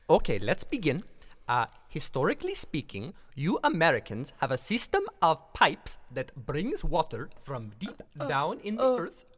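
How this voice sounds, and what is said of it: Speaks with a noticeable accent. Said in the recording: “I can't understand you over your accent.”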